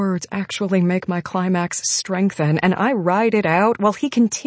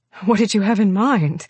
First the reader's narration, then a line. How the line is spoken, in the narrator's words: ask breathlessly as I'm having trouble keeping adequate oxygen in my lungs